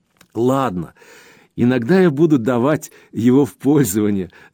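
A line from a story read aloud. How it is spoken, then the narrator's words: Laughing. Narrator (Russian): рассмеялась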